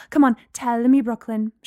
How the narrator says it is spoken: she said eagerly

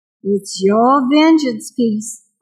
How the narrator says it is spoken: Barbary said

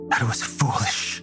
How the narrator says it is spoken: Ifair said, her voice quivering

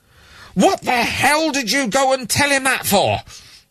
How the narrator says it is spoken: Lewin was shouting

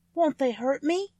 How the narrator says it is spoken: asked the girl anxiously

